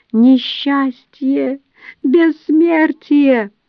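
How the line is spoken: High-pitched squeak. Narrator (Russian): тот высоким голосом пищит

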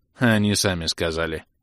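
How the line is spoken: Caustic snort. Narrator (Russian): едко фыркнул тот в ответ

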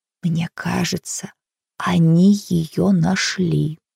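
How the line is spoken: Quiet. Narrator (Russian): сказала она тихо

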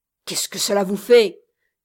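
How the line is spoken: Gruff retort. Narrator (French): répliqua l'ami d'un ton bourru

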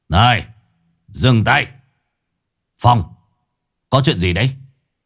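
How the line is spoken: Shouted. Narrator (Vietnamese): lão quát

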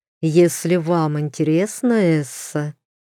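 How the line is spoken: Hesitant drawl. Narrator (Russian): с некоторым сомнением протянул герцог

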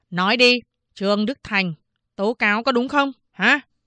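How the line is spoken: Stern question. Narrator (Vietnamese): Tay cán bộ huyện nghiêm giọng hỏi

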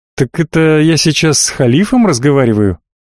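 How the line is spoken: Laughing. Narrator (Russian): рассмеялся я

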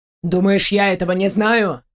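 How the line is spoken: Growled. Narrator (Russian): рыкнул Диарден

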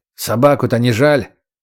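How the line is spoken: Displeased mutter. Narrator (Russian): недовольно буркнул чекист

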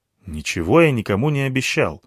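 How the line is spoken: Irritated. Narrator (Russian): ответил я раздраженно

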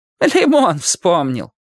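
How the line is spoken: Said, then laughing. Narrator (Russian): сказала она и засмеялась

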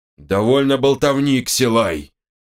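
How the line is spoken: Booming voice. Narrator (Russian): прогудел Нгала

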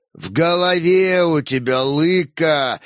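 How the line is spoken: Grumbling old warrior. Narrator (Russian): ворчал старый воин

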